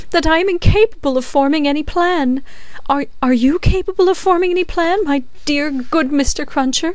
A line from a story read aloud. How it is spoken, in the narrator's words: said Miss Pross, wildly crying